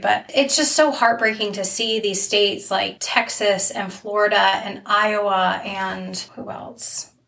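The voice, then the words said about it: Hoarse, fading voice. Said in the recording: “I'm losing my voice anyway”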